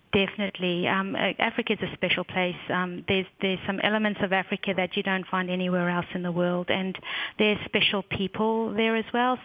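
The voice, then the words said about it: Slight African accent twang. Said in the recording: “a little bit of a twang, an African accent.”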